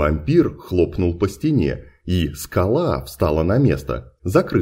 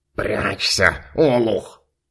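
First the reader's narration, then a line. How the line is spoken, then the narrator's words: Hissed. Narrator (Russian): Прошипел Фунтик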